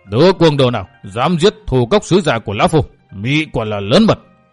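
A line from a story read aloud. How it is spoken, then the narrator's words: Thunderous roaring demand. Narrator (Vietnamese): tiếng gầm như sấm vang quát hỏi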